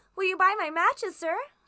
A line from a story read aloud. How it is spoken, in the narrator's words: she begged